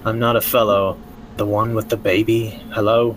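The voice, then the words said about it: Character voice with slight accent. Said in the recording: “That better not be a sexy voice. ... I have a slight accent.”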